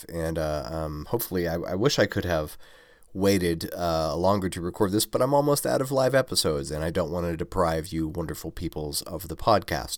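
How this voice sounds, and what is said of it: Slightly off, congested voice. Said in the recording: “my voice sounds a little bit funny, it's probably because I'm at the tail end of a sinus infection”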